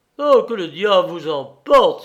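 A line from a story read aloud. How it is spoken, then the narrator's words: Exclaiming. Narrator (French): s'écria-t-il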